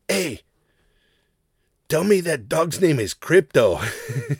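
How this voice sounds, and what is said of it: Imitated cholo accent. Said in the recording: “three cholo dudes ... I'm going to do a racist impression. But it's what it sounded like.”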